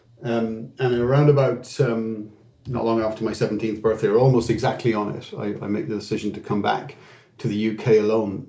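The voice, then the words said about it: Irish accent. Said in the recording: “I have an Irish accent,”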